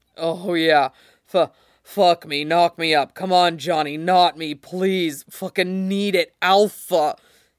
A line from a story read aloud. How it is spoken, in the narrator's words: moans out